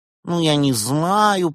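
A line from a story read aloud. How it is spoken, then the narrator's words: Mumbling. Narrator (Russian): промямлил граф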